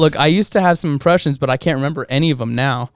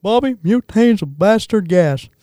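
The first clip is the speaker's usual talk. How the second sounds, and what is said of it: Imitates a cartoon character's voice. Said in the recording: “I might be able to do Hank Hill.”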